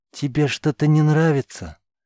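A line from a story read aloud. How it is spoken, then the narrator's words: Feigned caring question. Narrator (Russian): притворно заботливым голосом спросил поднявший ее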